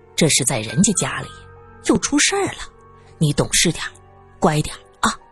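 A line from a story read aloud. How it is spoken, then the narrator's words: Soft comforting. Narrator (Chinese): 江河又换成柔声安慰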